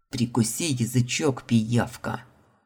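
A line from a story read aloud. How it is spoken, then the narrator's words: Growled. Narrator (Russian): Рыкнул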